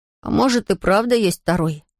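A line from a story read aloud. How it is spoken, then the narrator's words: Muttering. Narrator (Russian): пробормотал он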